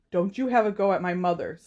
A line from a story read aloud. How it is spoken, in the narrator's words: snapped Seamus